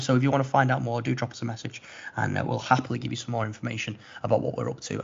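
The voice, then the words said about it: Strained, failing voice. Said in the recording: “My voice is going, mate.”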